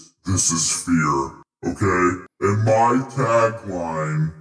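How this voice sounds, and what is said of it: Usual voice. Nothing is said of it.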